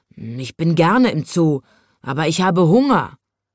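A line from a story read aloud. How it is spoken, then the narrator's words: Grumbling tiny lion. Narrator (German): brummte der winzige Löwe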